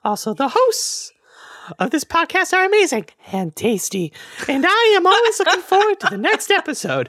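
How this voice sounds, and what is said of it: Silly childlike cartoonish voice. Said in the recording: “You sound exactly like a little baby shark ... my dumb voice”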